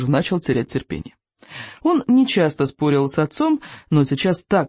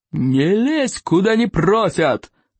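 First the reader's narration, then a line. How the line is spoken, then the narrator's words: Yelled. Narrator (Russian): заорал стоик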